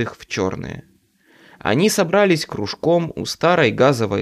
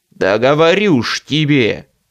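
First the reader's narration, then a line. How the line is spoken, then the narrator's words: Growling. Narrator (Russian): рычал очкарик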